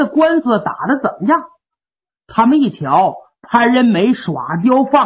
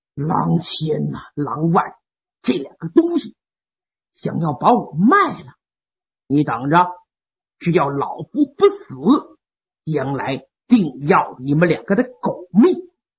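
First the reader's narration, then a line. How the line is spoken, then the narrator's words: Through gritted teeth. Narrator (Chinese): 潘仁美一咬牙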